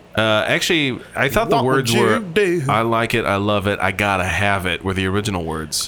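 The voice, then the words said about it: Country twang in voice. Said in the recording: “I got a country twang going to my voice.”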